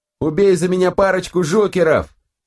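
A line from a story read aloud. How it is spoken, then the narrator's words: Shout. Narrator (Russian): крикнул Питер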